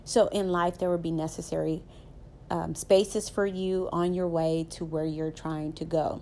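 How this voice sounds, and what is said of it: Southern American accent. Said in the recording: “I'm a Southern girl, as you can tell by my accent. I am very Southern”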